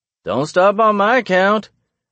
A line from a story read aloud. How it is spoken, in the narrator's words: he hollers up at me